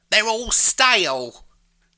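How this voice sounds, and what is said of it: Put-on London accent. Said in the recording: “it's set in London. That's important for the accent that I gave.”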